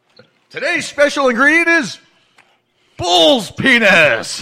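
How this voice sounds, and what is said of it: Imitates a TV show host's voice. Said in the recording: “I always had my impression of that, the chairman”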